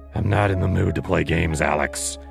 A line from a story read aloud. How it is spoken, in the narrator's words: he growled